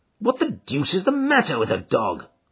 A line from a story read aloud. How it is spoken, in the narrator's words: growled Holmes